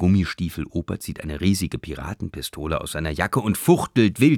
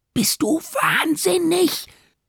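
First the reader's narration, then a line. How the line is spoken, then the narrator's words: Hissed. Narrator (German): zischt Vera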